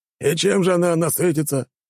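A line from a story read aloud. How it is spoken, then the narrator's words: Bark. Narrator (Russian): рявкнул Кромвель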